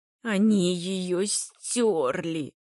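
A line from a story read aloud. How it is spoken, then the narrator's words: Moaning. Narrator (Russian): Более простонал, нежели произнес латинист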